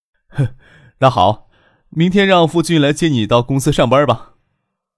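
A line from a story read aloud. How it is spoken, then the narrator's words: Laughing. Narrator (Chinese): 张克笑着说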